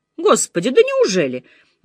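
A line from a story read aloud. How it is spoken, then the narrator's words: Exclaiming. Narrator (Russian): воскликнула мисс Марпл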